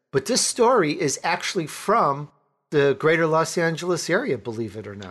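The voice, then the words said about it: Chicago accent. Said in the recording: “I grew up in Chicago, so I have that Chicagoan accent.”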